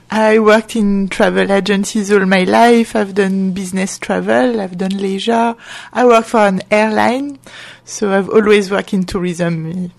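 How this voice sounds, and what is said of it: French accent. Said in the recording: “judging by your accent, not always in the UK ... I'm French ... as you can tell with my accent ... Lovely accent. Beautiful it is.”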